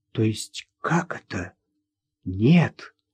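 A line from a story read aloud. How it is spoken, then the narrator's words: Whispered. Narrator (Russian): шепотом произнесла Людмила Сергеевна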